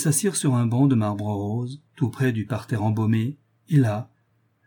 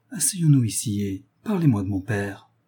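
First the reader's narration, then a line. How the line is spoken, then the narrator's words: Soft. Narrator (French): dit doucement René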